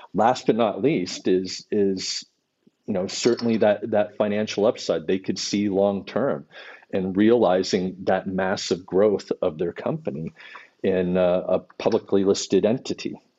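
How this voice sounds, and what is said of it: Californian American accent. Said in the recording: “Californian accent”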